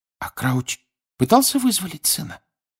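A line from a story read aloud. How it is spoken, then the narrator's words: Whispering. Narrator (Russian): прошептала Гермиона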